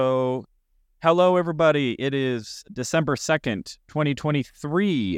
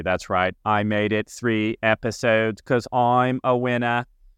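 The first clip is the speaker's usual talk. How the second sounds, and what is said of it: Poor imitation of another person's voice. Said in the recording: “I think that was supposed to be a Kennedy. If it was, it was probably one of the worst Kennedy impersonations ever.”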